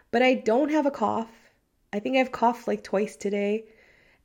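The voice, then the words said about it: Hoarse, congested-sounding voice. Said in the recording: “I feel like I'm losing my voice ... my nose is not stuffy, and I still kind of sound like it is”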